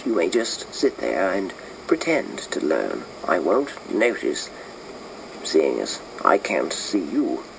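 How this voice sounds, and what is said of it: Put-on British accent, rounded vowels. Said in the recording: “to do a British accent ... it's sort of all in the rolliness. The rolliness of the vowels. You've got to get your vowels rounded off”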